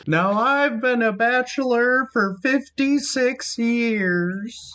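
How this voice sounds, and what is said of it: Surly old-timey prospector voice. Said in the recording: “that your Bernard impression ... I'm terrible at impressions, and that was my Bernard ... Bernard was an old-timey prospector ... he comes across as a surly old man”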